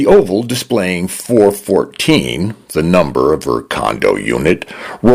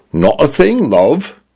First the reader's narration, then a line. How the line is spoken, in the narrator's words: her condo said in a male British voice that leaned toward a Cockney accent